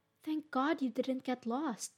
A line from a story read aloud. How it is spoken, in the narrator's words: exclaimed